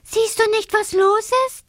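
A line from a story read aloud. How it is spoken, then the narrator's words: Calling from afar. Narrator (German): ruft er ihm schon von Weitem zu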